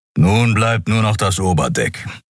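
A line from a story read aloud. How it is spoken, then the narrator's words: Growled. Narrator (German): knurrte er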